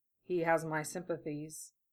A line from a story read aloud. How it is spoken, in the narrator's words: Gara muttered into Lee's shoulder